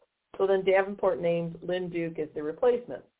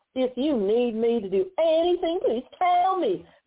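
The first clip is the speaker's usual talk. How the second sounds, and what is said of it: Mocking put-on Southern accent. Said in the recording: “I'm going to use that Southern accent again because these people deserve to be mocked”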